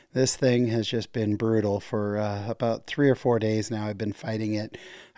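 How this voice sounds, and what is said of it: Congested voice from a cold. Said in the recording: “in case you can't tell by my voice, I am battling a nasty cold.”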